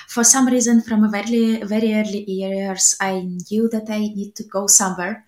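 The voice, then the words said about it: Eastern European accent. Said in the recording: “I was born in a small place called Belgorod, just on the country border between Russia and Ukraine, in case you're wondering where my accent is coming from”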